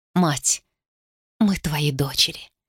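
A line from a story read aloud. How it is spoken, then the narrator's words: Quiet speech. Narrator (Russian): тихо сказала она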